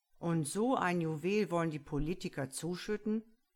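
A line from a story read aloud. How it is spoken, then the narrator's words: Grumbling. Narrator (German): Hollinger brummte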